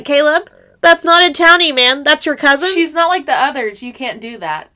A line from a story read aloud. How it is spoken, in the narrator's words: he's trying not to laugh, and he is like